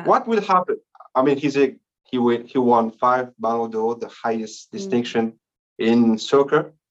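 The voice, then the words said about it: Speaks English with an accent. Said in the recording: “It's my accent, maybe.”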